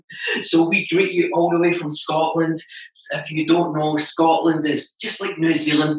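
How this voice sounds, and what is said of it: Strong Scottish accent. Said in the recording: “my strong Scottish accent”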